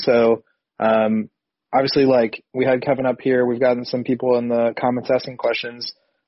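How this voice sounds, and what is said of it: Odd-sounding sick voice. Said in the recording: “my voice is kind of crazy. I've been sick the last couple of days, so I sound kind of weird.”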